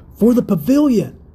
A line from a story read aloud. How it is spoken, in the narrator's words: he cried